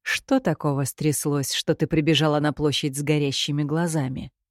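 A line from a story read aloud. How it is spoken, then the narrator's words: Unnaturally calm, peaceable inquiry. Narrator (Russian): Неестественно миролюбивым и спокойным тоном поинтересовался Кирино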